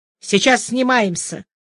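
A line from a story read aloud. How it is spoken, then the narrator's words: Sharp. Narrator (Russian): Тренер сказал резко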